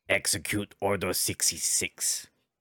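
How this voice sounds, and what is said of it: Terrible Darth Vader impression. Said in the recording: “That's a terrible Vader accent.”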